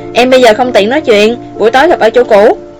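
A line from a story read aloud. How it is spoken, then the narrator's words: Hurried and angry. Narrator (Vietnamese): Cô vội vàng tức giận nói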